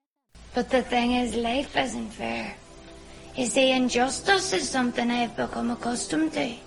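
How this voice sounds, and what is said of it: Strong Northern Irish accent. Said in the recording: “there is the accent. 这部剧给你的第一印象肯定是非常上头的北爱尔兰口音。Here's a sample of it.”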